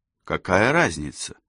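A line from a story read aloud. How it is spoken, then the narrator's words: Cold, insincere. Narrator (Russian): холодно заметила Кэсси, не совсем искренне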